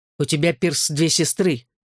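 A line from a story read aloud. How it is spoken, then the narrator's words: Sharp reminder. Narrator (Russian): резко напомнил я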